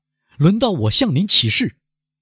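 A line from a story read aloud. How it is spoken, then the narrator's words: Loud. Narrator (Chinese): 莫雷尔大声地说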